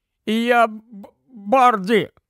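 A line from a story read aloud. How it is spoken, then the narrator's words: Groan. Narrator (Ukrainian): застогнав Рон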